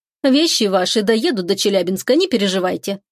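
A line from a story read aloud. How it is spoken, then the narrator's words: Casual matter-of-fact tone. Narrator (Russian): будничным тоном, словно речь идет о какой-то мелочи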